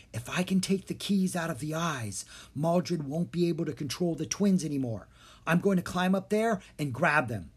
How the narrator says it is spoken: Drake quickly whispered to Jean and Dharma

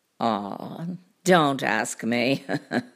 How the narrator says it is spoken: he laughed

